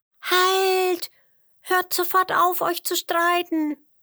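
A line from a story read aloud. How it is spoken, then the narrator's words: Loud squeaking. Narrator (German): piepste, so laut wie sie konnte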